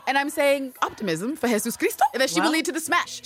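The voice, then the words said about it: Put-on vague British accent. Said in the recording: “my British accent from wherever”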